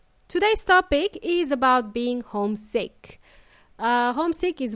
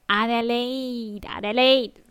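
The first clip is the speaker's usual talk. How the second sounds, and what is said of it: Funny put-on voice. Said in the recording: “in a very funny voice,”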